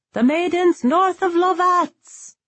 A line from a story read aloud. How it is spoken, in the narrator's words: Ryber hollered